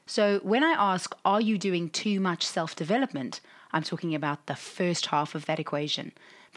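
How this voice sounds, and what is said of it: Raspy, husky voice. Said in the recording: “my raspy, husky voice”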